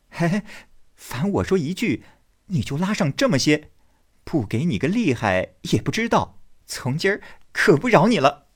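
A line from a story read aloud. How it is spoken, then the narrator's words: Laughing. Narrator (Chinese): 宝玉笑道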